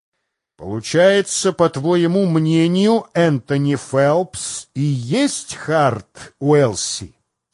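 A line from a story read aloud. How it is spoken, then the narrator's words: Plain. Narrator (Russian): спросил Дикс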